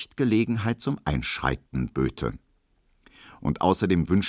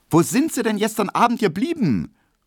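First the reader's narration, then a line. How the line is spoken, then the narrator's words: Unfriendly call. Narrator (German): rief die kleine, runde Hedwig Emil Kubinke wenig freundlich entgegen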